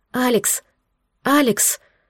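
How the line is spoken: Hoarse wheeze. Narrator (Russian): захрипела я

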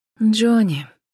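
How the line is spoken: Sigh. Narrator (Russian): Вздохнула Джен

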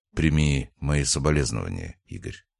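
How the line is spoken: Quiet. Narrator (Russian): тихо произнес

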